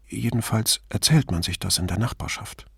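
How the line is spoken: Sad, qualifying. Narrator (German): sagte Paula traurig, schränkte dann aber ein

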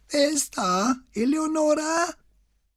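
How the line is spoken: High falsetto call from afar. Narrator (German): rief eine hohe Fistelstimme aus dem Hintergrund

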